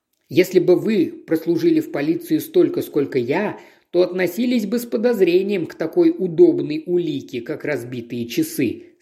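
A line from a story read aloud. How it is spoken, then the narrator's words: Plain. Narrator (Russian): сказал Спенс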